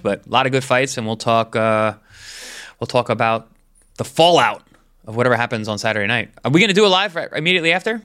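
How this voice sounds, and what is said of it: Sick, under-the-weather voice. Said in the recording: “Excuse my voice. I'm a little under the weather”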